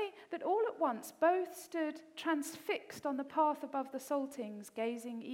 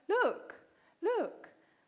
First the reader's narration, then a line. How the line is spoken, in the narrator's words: exclaimed